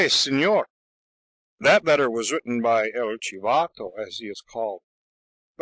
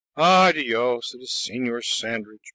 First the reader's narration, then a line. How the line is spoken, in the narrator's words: mumbled the old man